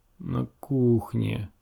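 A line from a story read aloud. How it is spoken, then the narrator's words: Dull, flat voice. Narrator (Russian): тусклым голосом отозвалась она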